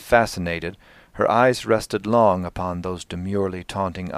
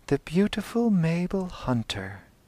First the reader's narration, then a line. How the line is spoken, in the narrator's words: The child murmured as if fascinated